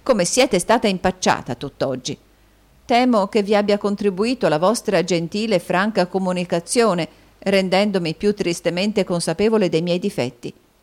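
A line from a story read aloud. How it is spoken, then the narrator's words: Sighing. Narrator (Italian): sospirò Caterina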